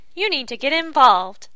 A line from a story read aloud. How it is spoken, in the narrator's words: Lucy exclaimed